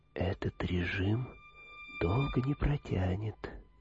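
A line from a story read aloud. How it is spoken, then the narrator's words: Smiling whisper. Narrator (Russian): Триданди улыбнулся и прошептал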